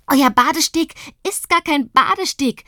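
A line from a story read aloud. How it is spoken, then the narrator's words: Excited shout. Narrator (German): schreit sie aufgeregt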